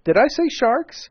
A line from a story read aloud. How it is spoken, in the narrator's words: I exclaimed hastily